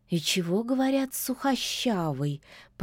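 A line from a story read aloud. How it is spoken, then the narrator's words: Drawling witch. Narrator (Russian): протянула ведьма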